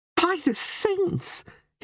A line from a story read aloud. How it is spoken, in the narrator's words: laughed